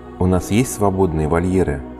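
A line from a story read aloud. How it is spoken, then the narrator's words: Plain question. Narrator (Russian): спросил я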